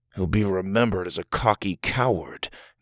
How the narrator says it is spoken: Doug mumbled

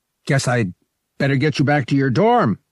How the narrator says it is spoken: he said loudly

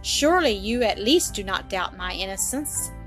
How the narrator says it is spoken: said Mary, in a reproachful voice, interrupting him

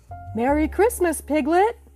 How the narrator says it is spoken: cried Pooh

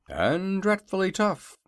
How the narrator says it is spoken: added the Hungry Tiger in a sad voice

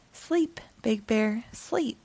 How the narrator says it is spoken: Old Man whispered as it grew dark

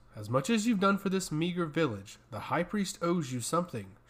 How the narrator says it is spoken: replied harshly

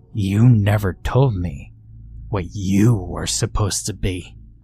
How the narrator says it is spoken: I growled

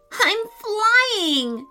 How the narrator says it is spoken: she cried

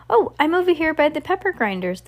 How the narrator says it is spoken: the delivery person called out in return

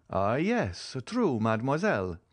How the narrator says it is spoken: exclaimed Monte Cristo

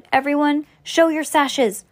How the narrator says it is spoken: Sam shouted

